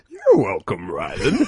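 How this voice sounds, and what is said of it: Weird, silly character voice. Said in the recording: “this really horrible, weird voice.”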